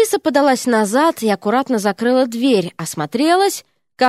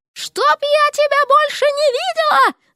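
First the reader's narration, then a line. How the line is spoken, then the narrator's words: Shrill falsetto shriek. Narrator (Russian): завизжала она фальцетом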